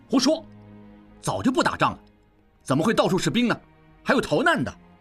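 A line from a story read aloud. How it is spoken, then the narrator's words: Angry shouting. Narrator (Chinese): 应济气不打一处来，大叫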